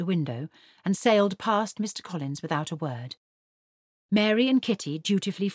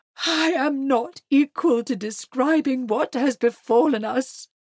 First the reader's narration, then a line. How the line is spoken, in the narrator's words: she announced in a low, disappointed moan